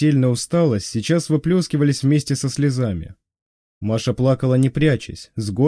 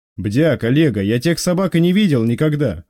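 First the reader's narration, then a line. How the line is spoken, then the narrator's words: Snapping back. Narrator (Russian): огрызнулся боцман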